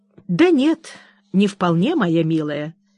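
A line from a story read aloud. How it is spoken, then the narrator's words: Unruffled calm objection. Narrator (Russian): возразила миссис Джеллиби самым невозмутимым тоном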